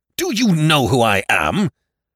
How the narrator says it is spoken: thundered McEachern

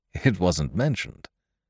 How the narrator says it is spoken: Lowe chuckled

